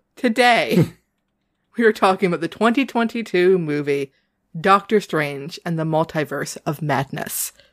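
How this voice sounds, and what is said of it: New England accent. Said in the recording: “with my New England accent, it sounds weird”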